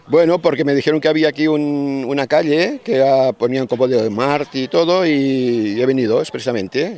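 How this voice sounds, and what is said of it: Spanish with a strong Catalan accent. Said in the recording (Catalan): “parlava curiosament amb un accent molt català”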